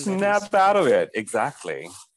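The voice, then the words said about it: Imitates another person's voice. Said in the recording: “That was my share impression,”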